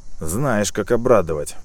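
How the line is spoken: Sighing. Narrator (Russian): вздохнул мужчина

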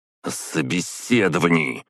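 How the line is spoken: Growl. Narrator (Russian): прорычал он

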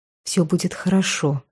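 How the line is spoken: Whisper. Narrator (Russian): шепнула

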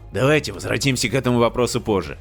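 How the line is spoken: Irritated, curt. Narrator (Russian): раздраженно бросил его Стивенс

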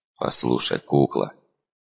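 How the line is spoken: Soft speech. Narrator (Russian): тихонько проговорил я

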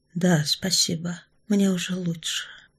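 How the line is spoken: Young woman's whisper. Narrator (Russian): прошептала девушка

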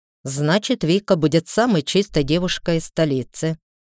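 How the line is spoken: Snorting. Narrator (Russian): хмыкнул Бирн

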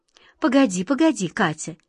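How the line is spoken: Gentle, soothing. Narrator (Russian): мягко остановил ее волшебник Алеша

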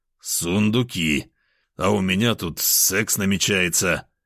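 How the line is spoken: Resigned sigh. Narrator (Russian): обреченно вздохнул

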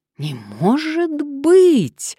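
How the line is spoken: Surprised exclamation. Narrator (Russian): удивленно воскликнула Мария

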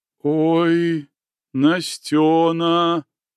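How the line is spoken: Sudden sepulchral voice. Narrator (Russian): Каким-то замогильным голосом вдруг произнесла Авраама

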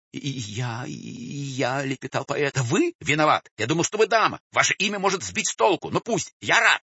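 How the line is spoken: Desperate shouting. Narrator (Russian): все с тем же отчаянием кричал

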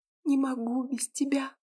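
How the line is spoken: Quiet whisper. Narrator (Russian): тихо нашептывала

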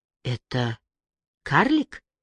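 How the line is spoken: Mutter. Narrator (Russian): пробормотала Джози

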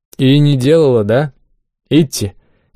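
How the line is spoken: Snide smirking tone. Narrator (Russian): ехидно ухмыльнулся Рандон

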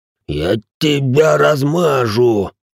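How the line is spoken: Hiss. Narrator (Russian): прошипел бледнеющий Рэй

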